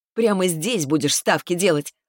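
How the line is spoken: Laughing loudly. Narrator (Russian): расхохоталась я

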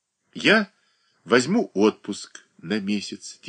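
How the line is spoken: Quiet reply. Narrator (Russian): тихо ответила она

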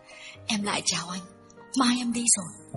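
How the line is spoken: Hurried, trembling. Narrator (Vietnamese): Duyên đã vội vàng run run bảo

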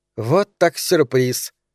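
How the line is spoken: Offended declaration. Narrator (Russian): обиженно заявила Регина, узнав об остром приступе мигрени у Сары

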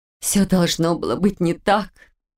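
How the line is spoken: Sudden moan, quiet sob. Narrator (Russian): неожиданно простонала, тихо всхлипнув

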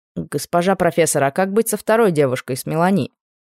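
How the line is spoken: Plain. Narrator (Russian): спросил Анри

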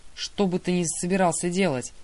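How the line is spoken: Growl. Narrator (Russian): Лев рыкнул

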